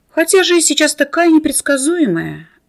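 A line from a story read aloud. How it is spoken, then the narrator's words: Theatrical sigh. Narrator (Russian): Лицедейка картинно вздохнула, как бы напрашиваясь на сочувствие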